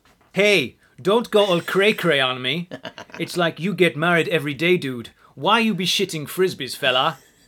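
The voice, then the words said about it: Imitates another person's voice. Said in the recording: “it's a Tom Baker impersonation ... it's a Tom Baker impression”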